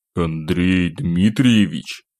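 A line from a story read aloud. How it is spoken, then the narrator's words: Hoarse, sleepy croak. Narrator (Russian): хрипло выдавил я с просонья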